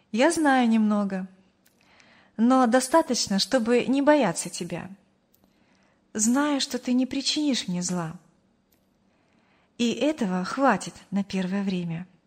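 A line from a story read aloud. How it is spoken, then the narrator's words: Calm girl's reply. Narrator (Russian): спокойно ответила девушка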